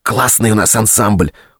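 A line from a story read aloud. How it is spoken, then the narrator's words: Loud whisper. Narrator (Russian): громко прошептала Галя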